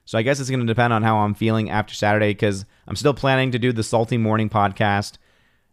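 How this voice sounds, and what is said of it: Voice not fully recovered. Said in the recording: “as you can tell, my voice is still not 100%”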